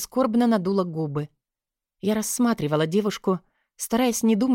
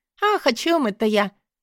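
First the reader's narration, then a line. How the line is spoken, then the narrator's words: Cheerful laugh. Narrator (Russian): весело засмеялась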